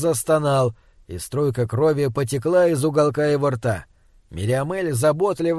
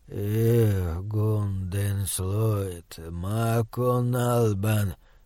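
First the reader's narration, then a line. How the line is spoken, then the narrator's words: Muttering in foreign language. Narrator (Russian): пробормотал он на эрнистерийском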